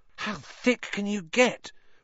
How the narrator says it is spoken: Ron whispered ecstatically

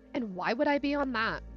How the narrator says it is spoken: I snapped

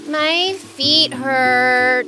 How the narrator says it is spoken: Alexander whined

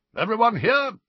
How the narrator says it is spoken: barked Professor Grubbly Plank

